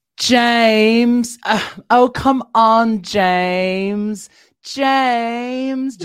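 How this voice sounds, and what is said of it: Mia Goth impression. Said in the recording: “doing her impression of saying Alexander Skarsgård's name ... Mia Goth”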